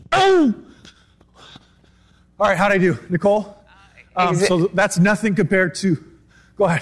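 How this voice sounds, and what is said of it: Out of breath, panting. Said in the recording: “I'm out of breath. ... I know you're out of breath.”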